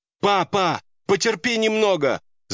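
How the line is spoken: Screaming with all her might. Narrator (Russian): закричала она изо всех сил

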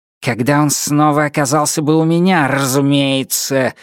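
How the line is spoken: Growl. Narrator (Russian): зарычал он

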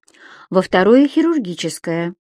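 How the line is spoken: Calm reply. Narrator (Russian): также спокойно ответила ей Катя

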